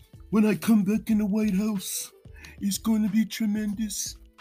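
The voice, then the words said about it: Imitates another person's voice. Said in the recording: “my impersonation of Trump. It's not the best. I'm working on it.”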